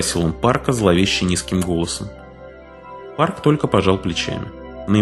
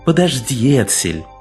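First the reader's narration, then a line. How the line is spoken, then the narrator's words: Pleading tone. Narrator (Russian): умоляющим тоном сказал Факсон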